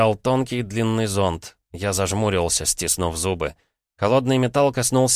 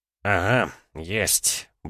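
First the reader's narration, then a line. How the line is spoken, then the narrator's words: Muttering. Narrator (Russian): бормотал доктор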